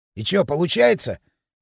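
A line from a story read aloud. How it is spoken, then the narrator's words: Distrustful scoff. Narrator (Russian): недоверчиво хмыкнул Пакля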